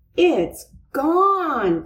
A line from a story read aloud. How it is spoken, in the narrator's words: cried Francine